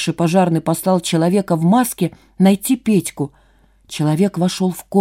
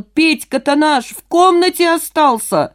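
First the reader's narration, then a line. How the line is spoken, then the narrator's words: Alarmed shout. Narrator (Russian): Одного жильца не хватало, и мужчина закричал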